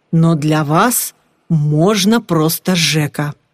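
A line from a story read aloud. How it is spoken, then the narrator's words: Added in a male voice. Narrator (Russian): мужским голосом добавил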